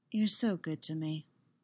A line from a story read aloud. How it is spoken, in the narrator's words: Padme murmured